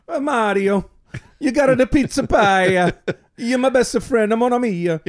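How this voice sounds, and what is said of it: Mock Italian accent. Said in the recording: “Italian is the last language, is the last accent that we can safely mock as Americans”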